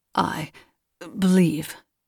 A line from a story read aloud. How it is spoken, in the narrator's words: stammered Brantine